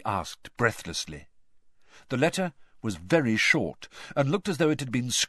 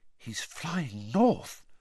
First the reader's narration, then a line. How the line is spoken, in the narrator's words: Hermione whispered